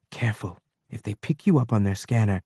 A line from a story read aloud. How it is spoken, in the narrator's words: She was whispering to someone on the comm